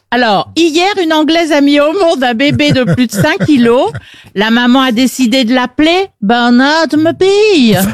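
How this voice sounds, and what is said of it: Put-on accent, done well. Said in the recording (French): “Elle le fait bien, en plus. ... Très bon accent. Très bon accent.”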